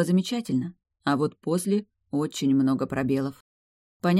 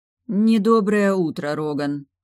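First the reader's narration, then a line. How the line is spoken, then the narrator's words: Grumbled. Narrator (Russian): пробурчала я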